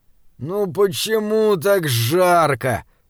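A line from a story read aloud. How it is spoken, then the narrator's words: Moaning. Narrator (Russian): простонал Джеремия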